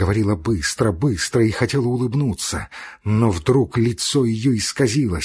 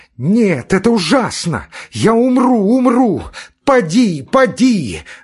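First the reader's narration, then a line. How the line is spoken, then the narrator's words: Woman screaming. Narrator (Russian): Закричала она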